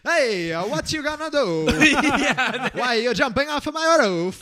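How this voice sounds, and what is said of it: Put-on Italian accent. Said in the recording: “a very Italian accent”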